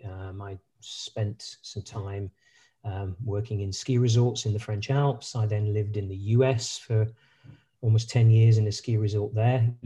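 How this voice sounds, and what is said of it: British accent. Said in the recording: “You can probably tell from my accent, I'm a British, British by origin.”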